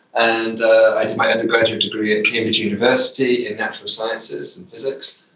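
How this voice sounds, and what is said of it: British accent. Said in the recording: “I grew up in the UK, hence the accent”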